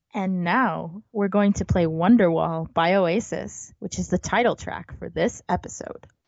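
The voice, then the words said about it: Radio DJ announcer voice. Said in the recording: “do your best DJ voice”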